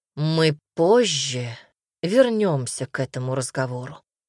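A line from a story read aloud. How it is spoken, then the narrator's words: Sighed. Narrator (Russian): вздохнул Дамир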